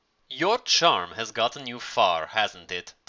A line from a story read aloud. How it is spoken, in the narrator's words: Talia asked coolly